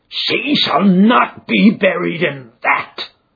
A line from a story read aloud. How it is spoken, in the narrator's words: cried with a fierce snarl